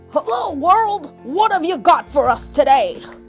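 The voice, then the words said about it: Loud, booming voice. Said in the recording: “in a real loud voice”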